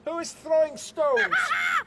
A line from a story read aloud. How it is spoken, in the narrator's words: He screeched